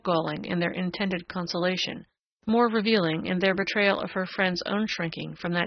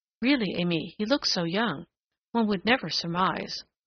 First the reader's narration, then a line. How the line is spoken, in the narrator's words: The whispers of her young maids of honor